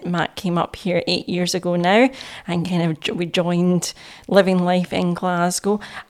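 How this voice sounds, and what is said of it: Scottish accent. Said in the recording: “we're based up here in Scotland, as you can tell by my accent.”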